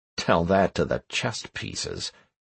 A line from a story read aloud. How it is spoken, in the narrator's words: I muttered